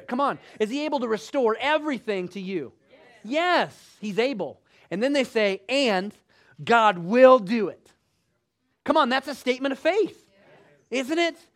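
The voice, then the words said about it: Emphatic, raised-pitch preaching voice. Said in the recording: “You know I'm not mad while I'm talking like this, right? This is just my emphatic higher register.”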